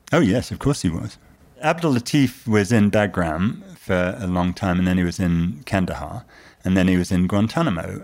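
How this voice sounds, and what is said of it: British accent. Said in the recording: “notwithstanding my patent British accent”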